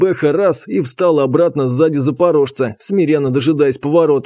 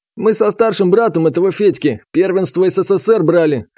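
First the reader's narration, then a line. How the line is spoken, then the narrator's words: Coach's snort. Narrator (Russian): хмыкнул тренер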